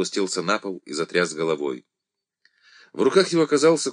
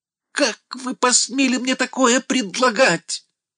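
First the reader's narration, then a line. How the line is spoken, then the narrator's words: Mad laughter, then shouting. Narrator (Russian): Пергаменщиков по-сумасшедшему захохотал, потом закричал хряку в лицо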